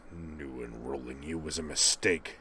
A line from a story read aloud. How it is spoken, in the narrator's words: a low growl